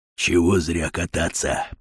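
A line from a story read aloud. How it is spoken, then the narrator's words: Whisper. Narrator (Russian): прошептал Батон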